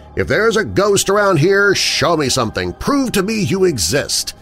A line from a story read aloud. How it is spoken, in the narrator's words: I began to mock the idea of ghosts and loudly proclaimed